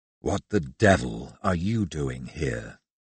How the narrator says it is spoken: His voice was low, his tone aggressive, his diction clipped and forceful

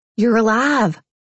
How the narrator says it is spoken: I shrieked

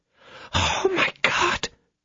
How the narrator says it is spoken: whispered Kitty

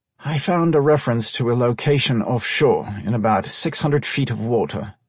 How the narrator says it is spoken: Kevin muttered

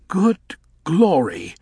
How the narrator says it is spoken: breathed Elfie

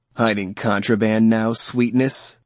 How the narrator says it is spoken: His chuckle sickened me

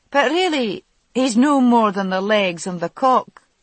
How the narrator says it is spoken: she laughed briefly

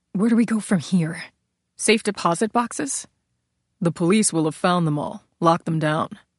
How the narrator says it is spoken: desperately muttered

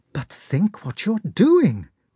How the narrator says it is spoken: cried Sonya

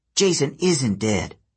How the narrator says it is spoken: Hazel snapped

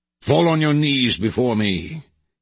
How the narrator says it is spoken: he bellowed

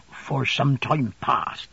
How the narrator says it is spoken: Ham faltered

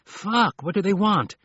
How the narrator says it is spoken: he said shakily

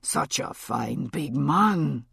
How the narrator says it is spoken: she murmured

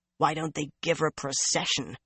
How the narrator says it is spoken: Nynaeve growled

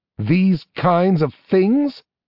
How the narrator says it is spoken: snapped Valerian

